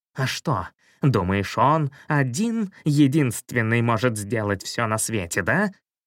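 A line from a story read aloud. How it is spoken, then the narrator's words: Fierce hiss. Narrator (Russian): прошипел, свирепо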